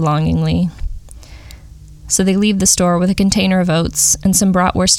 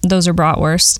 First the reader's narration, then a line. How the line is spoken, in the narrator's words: the woman says flatly, like he's a fool